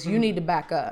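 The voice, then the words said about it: Deep, forceful bassy voice. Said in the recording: “Like bass in my fucking voice.”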